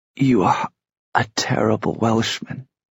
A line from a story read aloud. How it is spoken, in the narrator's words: she said thickly